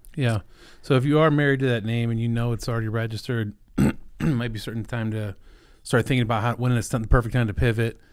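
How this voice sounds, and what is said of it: Hoarse voice. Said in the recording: “sorry my voice is hoarse. ... I feel like I've been sick for a month now.”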